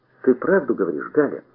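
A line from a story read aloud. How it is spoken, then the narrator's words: Joyful question. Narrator (Russian): радостно спросил я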